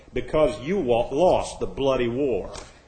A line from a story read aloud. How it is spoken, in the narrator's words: An unknown voice in a beautiful British accent replied